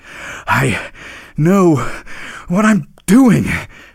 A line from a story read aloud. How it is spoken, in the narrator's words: panted the reindeer